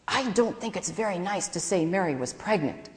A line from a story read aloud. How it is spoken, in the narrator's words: Alice whispered to me